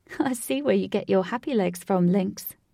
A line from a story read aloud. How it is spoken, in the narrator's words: Katie said, laughing